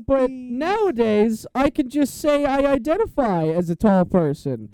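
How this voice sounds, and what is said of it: Imitates a talk show host voice. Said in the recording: “Is that your Bill Maher impression? ... no, it's more of just a random host impression.”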